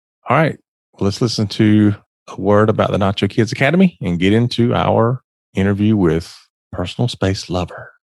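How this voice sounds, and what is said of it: Smooth late-night radio DJ voice. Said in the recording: “that just sounded gross ... That was my nightly FM DJ voice.”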